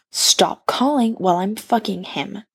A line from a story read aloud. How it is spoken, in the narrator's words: growls Sarah